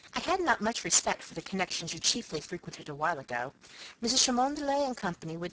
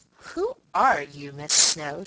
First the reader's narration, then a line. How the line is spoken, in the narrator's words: inquired, in a tone of such undisguised and unsophisticated curiosity